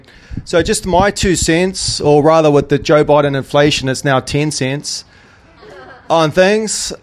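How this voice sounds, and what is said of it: New Zealand accent. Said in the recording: “from New Zealand, obviously with my accent”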